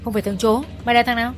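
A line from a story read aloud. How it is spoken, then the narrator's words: Several men shouting. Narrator (Vietnamese): Vài thằng quát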